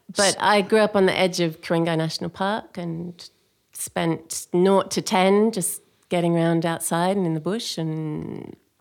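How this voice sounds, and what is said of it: Clipped, posh-sounding English accent. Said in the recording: “I have an English accent, but I'm not English. I'm Australian. ... So you're posh. ... I don't have a posh English accent ... it does sound rather clipped here ... Sounds really posh.”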